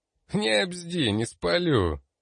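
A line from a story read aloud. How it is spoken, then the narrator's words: Lazy. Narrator (Russian): лениво ответил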